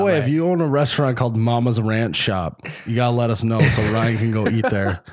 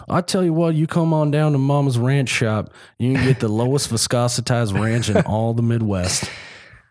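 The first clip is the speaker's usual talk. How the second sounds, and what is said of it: Put-on Southern accent. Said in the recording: “I don't know why they've developed a southern accent.”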